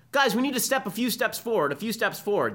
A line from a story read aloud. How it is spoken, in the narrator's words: associate dean yells to the crowd